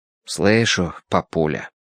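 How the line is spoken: Grunted. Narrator (Russian): буркнул Мэтью

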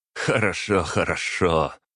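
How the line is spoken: Open laughter. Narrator (Russian): тот уже вовсю смеялся, не скрывая этого

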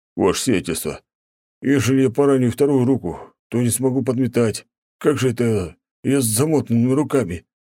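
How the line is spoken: Groaning, plaintive. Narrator (Russian): простонал дворник

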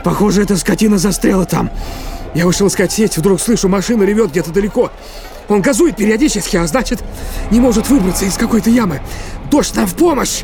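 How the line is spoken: Yelling. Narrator (Russian): заорал он

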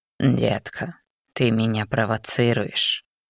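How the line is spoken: Hoarse demonic mutter. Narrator (Russian): севшим голосом пробормотал демон

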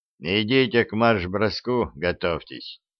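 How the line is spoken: Muttered. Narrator (Russian): пробурчал замкомбриг

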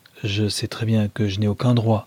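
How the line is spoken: Plain. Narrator (French): dit-elle

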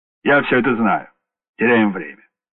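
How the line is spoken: Sharp. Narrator (Russian): сказал резко

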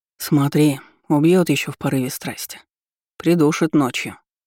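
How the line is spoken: Grumble. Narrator (Russian): буркнул Калиб

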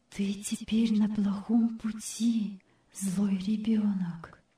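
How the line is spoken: Soft inner voice. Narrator (Russian): внутренний голос, о котором ей говорил отец Майнгард, тихонько сказал ей

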